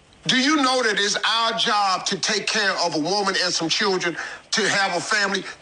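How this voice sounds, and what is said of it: Angry man, American accent. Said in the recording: “in his very American accent ... he seems angry”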